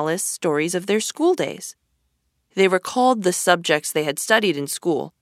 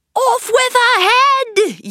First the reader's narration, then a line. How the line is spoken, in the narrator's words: yelled the queen